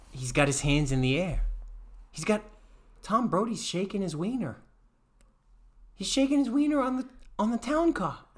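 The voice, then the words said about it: Put-on New York accent. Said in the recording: “I'm gaining a New York accent.”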